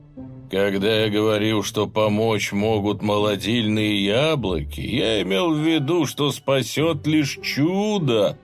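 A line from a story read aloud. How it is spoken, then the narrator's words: Groan. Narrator (Russian): простонал он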